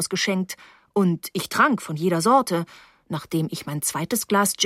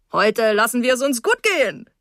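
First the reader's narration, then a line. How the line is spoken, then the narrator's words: Called out. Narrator (German): rief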